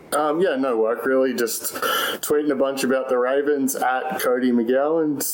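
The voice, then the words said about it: Australian accent. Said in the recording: “Americans can recognize a non-American accent. ... Originally from Australia”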